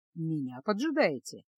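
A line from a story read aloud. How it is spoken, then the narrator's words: Soft low voice. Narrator (Russian): спросил он мягким, низким голосом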